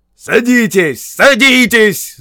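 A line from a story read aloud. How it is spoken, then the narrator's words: Shouted command. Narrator (Russian): закричал своим людям Уркхард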